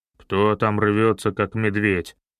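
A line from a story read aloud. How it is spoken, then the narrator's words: Deep bass, old man. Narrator (Russian): Пробасил неопрятный небольшого роста мужичок лет 60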